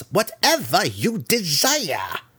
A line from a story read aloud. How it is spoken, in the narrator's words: Malice snarled again